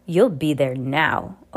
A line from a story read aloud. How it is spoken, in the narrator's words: Olaf growled